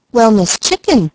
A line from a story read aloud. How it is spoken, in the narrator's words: exclaimed Mickey in surprise,